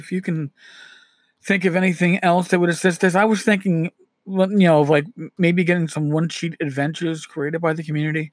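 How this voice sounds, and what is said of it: Hoarse, strained, fading voice. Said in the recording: “as I'm losing my voice”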